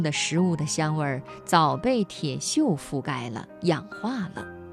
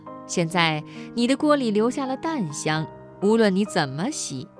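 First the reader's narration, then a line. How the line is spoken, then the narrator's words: Smiling. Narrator (Chinese): 朋友笑着说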